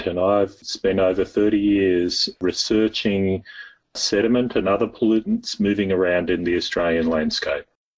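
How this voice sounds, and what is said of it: Australian accent. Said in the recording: “I'm Australian, as you can probably tell by my accent”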